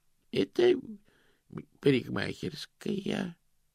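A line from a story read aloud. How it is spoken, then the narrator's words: Uncertain. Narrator (Russian): неуверенно сказал Грош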